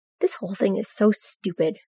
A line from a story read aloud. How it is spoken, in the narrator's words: Regulus grumbled